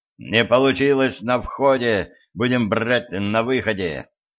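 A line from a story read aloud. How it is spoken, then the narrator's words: Growled while running. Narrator (Russian): прорычал он на бегу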